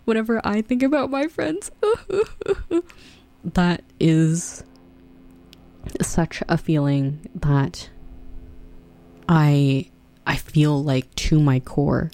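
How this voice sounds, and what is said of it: Emotional, moved voice. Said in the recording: “I'm getting emotional.”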